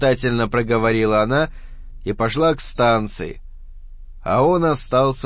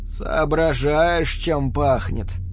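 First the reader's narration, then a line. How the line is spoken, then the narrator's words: Hoarse question. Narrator (Russian): спросил он хрипло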